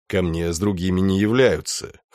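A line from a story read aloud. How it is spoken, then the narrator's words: Sullen mutter. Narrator (Russian): хмуро буркнул Малефик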